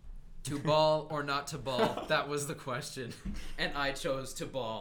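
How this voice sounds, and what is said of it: William Shakespeare impression. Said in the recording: “William Shakespeare doing a post-game basketball interview”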